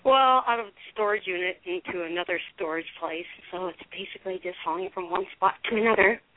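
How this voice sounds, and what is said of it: Out of breath, panting speech. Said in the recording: “I'm a little out of breath ... I'm out of breath because I'm hauling boxes.”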